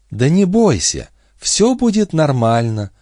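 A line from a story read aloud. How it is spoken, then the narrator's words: Sickly sweet menacing coo. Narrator (Russian): проворковала Бобби, и за этой приторной нежностью скрывалось нечто воистину страшное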